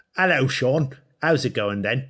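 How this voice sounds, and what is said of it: Weak put-on British accent. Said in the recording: “Can you do a British accent? ... See, that's your best Dick Van Dyke. ... I can't even do it.”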